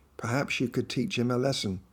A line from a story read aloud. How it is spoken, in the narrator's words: smiled and whispered to me